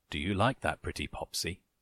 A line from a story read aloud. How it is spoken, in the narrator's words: he murmured